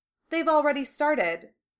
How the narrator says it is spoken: Hermione said

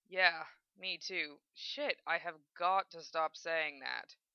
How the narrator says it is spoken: Zel muttered

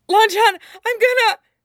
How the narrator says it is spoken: he gasps

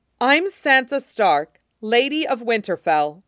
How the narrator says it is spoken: she said, her voice cold and carrying

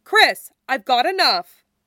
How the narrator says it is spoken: Victoria shouts

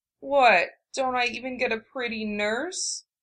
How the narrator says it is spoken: Jiraiya asked in a pitiful tone, only slightly marred by the lingering hitch in his breath

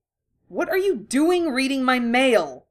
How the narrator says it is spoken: Harry said angrily

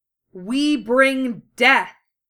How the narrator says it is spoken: the chorus howled

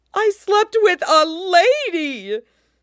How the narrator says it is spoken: Sanji screeches

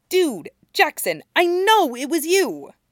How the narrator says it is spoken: Stiles snarls at him

